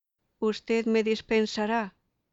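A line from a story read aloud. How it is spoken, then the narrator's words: Plain. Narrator (Spanish): me dijo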